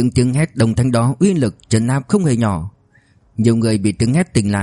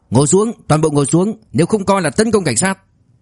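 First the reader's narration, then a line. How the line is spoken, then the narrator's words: Shouting in unison. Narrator (Vietnamese): Cảnh sát đồng thanh hét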